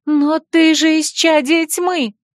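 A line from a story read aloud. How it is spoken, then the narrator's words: Exclaiming human girl. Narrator (Russian): воскликнула человеческая девушка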